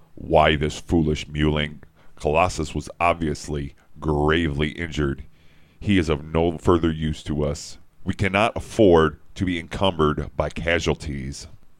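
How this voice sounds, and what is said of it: Performed Magneto character voice. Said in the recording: “do a voice... I'll read Magneto here”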